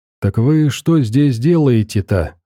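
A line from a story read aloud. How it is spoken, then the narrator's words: Plain. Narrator (Russian): спросил Веник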